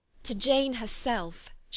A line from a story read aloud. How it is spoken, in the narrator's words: she exclaimed